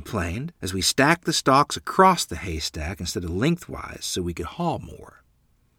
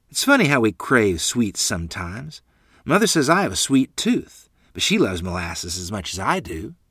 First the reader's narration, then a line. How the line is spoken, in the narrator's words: replied